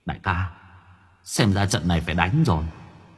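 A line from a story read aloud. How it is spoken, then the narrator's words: Muttered. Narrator (Vietnamese): miệng lẩm bẩm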